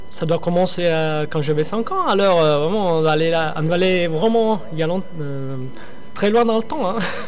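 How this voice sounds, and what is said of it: Slight Italian accent in French. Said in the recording (French): “j'ai cru entendre un petit accent italien, vous m'avez dit que vous étiez de la Sicile”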